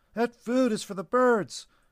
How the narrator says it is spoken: Scarlett pleaded with him

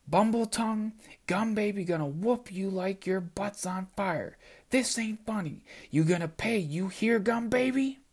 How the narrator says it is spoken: screamed at me in her shrill voice

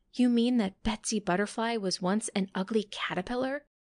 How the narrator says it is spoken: gasped Freddy Firefly

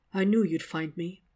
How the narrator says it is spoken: murmurs through chattering teeth

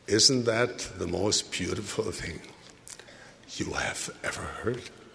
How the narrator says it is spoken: whispered, with a slight quiver in her voice

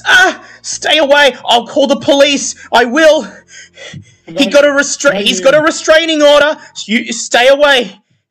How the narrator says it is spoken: She looks over at you and she screams

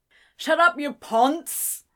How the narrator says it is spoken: Someone shouted from the back of the room

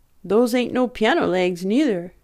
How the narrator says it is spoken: exclaimed the pressman admiringly

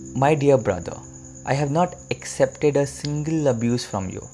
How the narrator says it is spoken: Gautam Buddha calmly replied

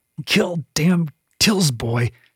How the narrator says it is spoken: Kyla grunted through gritted teeth

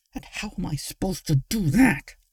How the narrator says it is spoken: Luna said through gritted teeth

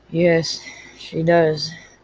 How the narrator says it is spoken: Judd said huskily

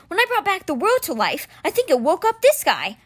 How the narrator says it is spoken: Alex yelled over the din

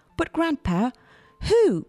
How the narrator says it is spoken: cried Charlie

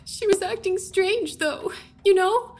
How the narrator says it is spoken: She sobbed

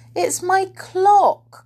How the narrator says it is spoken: cried Silky excitedly

